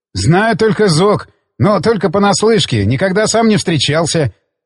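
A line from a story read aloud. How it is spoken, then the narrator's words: Laughing. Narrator (Russian): засмеялся я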